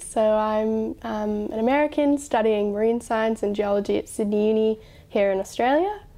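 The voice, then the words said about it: American accent with Australian influence. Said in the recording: “you might notice that my accent's a bit weird from the normal Americans ... you're already starting to talk like the people here in Sydney, Australia”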